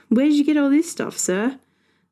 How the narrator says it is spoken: never going to stop laughing, but finally said

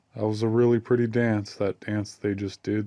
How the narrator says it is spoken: said Hazel

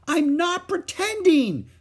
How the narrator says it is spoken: screamed Ramona

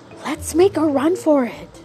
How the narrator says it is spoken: whispered

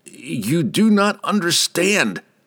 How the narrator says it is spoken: Laval cried

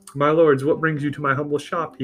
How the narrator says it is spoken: he asked with a northern accent

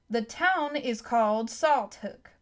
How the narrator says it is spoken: boomed the voice of the announcer

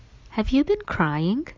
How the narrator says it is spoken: asked tenderly

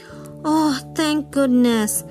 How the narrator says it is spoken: the lovely lady cried

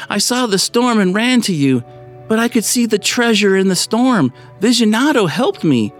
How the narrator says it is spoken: Bethany cried out

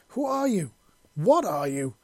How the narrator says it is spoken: the teen howled

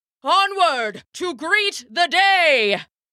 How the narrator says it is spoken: the god called out to the horses

